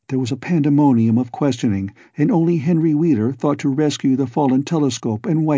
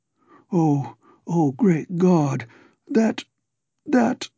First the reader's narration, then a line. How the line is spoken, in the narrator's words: moan half inaudibly